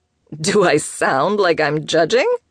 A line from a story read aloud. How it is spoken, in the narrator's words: Charlie laughed